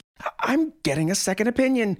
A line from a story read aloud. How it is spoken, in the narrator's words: she screamed